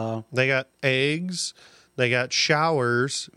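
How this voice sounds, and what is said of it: Usual voice. Nothing is said of it.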